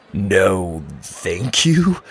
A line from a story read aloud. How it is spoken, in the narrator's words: Luke replied in a shocked tone